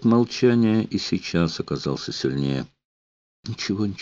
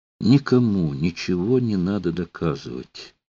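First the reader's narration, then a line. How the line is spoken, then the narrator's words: Forced calm. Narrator (Russian): старательно спокойно сказала Ула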